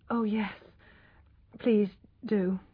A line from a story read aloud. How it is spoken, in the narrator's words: murmured Tess, too tired to be afraid of him